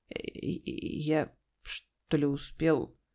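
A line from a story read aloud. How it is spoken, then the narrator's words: Confused mutter. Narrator (Russian): растерянно пробормотал он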